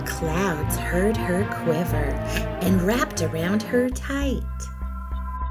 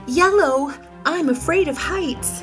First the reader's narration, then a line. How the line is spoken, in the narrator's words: Grammy yelped